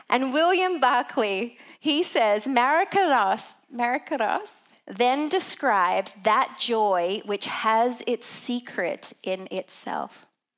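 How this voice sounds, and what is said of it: Australian accent. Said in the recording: “I just am not sure if Australians should ever try to speak Greek ... it just does not sound right with my accent.”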